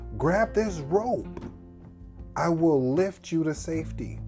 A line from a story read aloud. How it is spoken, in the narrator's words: the pilot shouted down